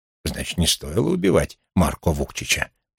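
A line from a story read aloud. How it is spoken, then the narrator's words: Muttered. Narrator (Russian): пробормотал Вулф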